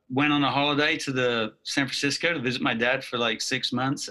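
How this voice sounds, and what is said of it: Mid-Atlantic British accent. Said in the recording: “my accent, which is sort of mid-Atlantic at this point, some people think I'm Aussie or Kiwi or South African, but I'm actually from the UK.”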